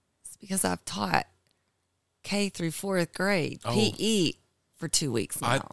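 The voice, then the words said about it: Hoarse voice. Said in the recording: “my voice is kind of hoarse”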